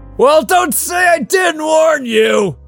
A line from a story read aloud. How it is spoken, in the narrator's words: yelled Trevor, his face flushed